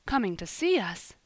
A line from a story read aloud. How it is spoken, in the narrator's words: he gasped